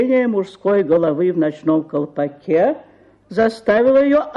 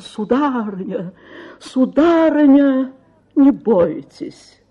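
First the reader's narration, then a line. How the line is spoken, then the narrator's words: Desperate pleading exclamation. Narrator (Russian): Доведенный до отчаяния мистер Пиквик умоляющим голосом воскликнул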